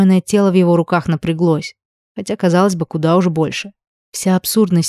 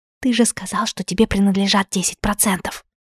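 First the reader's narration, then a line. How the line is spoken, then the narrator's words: Strangled whisper. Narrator (Russian): сдавленный шепот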